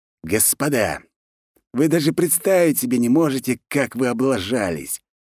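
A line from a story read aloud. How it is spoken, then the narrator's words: Venomous hiss over phone. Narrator (Russian): Ядовито прошипел маркиз в трубку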